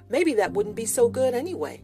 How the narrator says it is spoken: said Paul

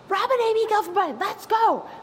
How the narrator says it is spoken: I hear my dad scream from down the hall

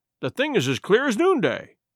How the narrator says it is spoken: cried the squire

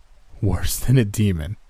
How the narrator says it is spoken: choked out, fighting a painful smile

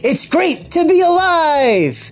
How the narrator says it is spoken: an inner enthusiastic voice shouting

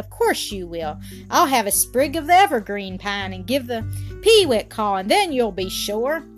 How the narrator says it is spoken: said Alan, trying to smile gaily

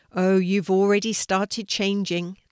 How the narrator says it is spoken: the hedgehog said

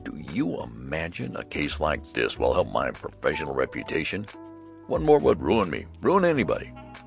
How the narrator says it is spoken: muttering

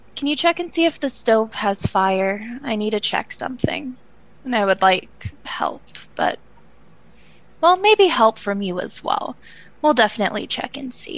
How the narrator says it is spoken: sigh, say

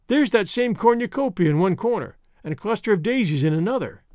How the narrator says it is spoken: she mentioned feebly

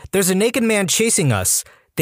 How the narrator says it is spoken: I yelled

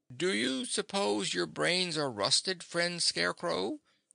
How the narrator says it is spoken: he asked in a weak voice, for his jaws could scarcely move

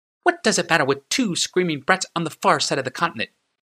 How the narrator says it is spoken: said Drafna sharply

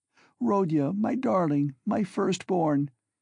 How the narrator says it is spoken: she said, sobbing

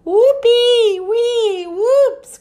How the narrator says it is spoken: cried Lulu, Ted, and Harry

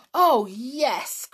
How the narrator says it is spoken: cried George, who had sat still for quite long enough

